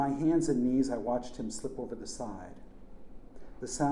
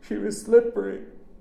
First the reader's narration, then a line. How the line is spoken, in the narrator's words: sobbed